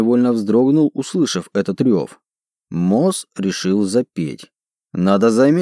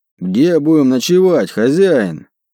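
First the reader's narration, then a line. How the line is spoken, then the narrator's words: Roared. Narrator (Russian): проревел он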